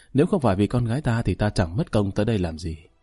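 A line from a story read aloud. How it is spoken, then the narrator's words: Soft laugh. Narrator (Vietnamese): Bạch phu nhân cười khẽ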